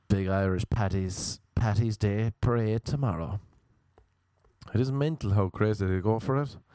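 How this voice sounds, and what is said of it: Irish accent. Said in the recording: “my accent was a novelty ... the Irish accent”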